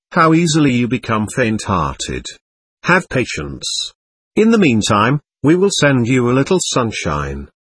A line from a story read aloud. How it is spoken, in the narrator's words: He said in a kindly manner